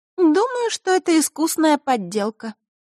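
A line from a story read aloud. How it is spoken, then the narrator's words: Sad declaration. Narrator (Russian): грустно заявила Маришка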